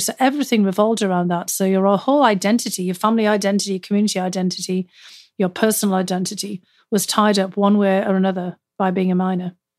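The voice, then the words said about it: Lovely, enchanting accent. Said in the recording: “your accent to be lovely, bordering on enchanting ... just how exceedingly lovely your accent is”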